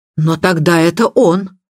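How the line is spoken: Exclaiming. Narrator (Russian): воскликнула миссис Ривз

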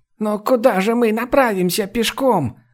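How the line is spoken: Exclaimed. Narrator (Russian): воскликнула Лими

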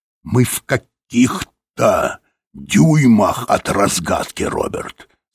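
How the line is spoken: Plain. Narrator (Russian): сказал Тибинг

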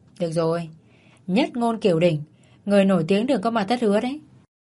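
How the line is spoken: Laughing. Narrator (Vietnamese): Vị bác sĩ bật cười

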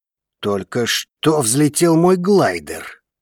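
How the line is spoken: Growled reply. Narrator (Russian): рыкнул в ответ Вулкан

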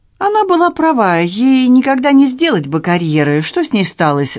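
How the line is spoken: Suddenly kinder tone. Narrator (Russian): спросила Люси внезапно подобревшим тоном

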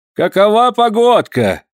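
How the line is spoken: Shouting. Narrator (Russian): крикнул кто-то

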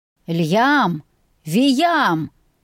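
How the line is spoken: Bear-like roar. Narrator (Russian): медведем взревел отец

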